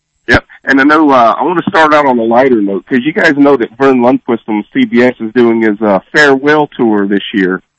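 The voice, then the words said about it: Hoarse voice from a cold. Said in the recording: “I apologize for my voice. I've been battling a cold for the past couple of days”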